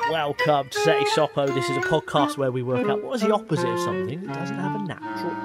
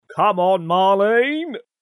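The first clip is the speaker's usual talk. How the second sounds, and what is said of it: Rubbish impression of sitcom character. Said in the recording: “my impression of Boise ... a rubbish impression”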